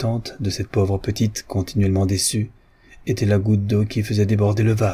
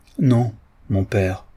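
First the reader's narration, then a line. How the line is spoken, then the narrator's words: Firm voice. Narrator (French): dit Marguerite d'une voix ferme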